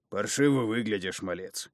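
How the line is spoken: Sympathetic deep rumbling bass. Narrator (Russian): пророкотал Остал своим глухим басом, сочувственно

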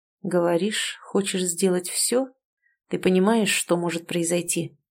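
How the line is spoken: Low muffled male. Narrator (Russian): Глухо произнес он

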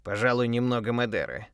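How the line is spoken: Grumbling mumble. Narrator (Russian): пробурчал он

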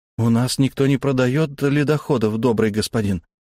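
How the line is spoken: Uncertain, smiling. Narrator (Russian): неуверенно улыбнулся

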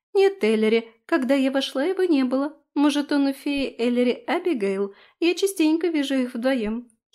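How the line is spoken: Giggling. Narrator (Russian): хихикнула Рози

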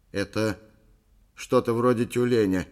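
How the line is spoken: Uncertain statement. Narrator (Russian): неуверенно сообщил Эйб

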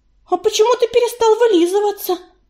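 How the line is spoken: Babbling timidly. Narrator (Russian): пролепетала она

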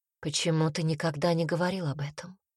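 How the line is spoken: Quiet question. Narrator (Russian): спросила Эверин тихо

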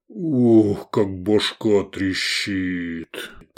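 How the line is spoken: Groaning. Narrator (Russian): простонал сын Ярная

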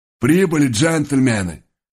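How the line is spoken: Husky horse voice from above. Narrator (Russian): раздался сверху хрипловатый голос коня

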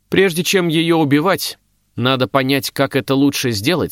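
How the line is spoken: Plain. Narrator (Russian): сказала Дагна

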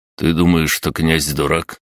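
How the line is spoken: Cheerless snort, lieutenant. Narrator (Russian): невесело хмыкнул лейтенант

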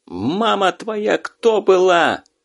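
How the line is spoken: Angry yell. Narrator (Russian): Зло заорал из вагона Щур

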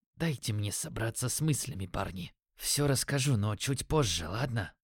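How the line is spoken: Quiet strained voice. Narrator (Russian): выдавил он тихим голосом

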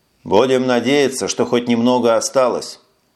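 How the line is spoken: Gloomy reply. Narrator (Russian): мрачно ответил Эш

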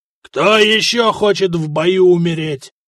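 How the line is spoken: Growl. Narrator (Russian): рыкнул жупан Гораст

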